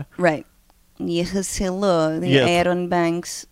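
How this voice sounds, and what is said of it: Put-on Russian woman's accent. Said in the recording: “once you talk about Russia, you have to go into your Natasha.”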